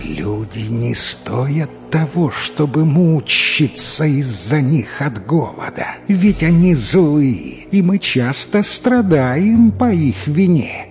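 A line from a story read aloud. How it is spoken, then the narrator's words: Hissing snake. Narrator (Russian): Змея зашипела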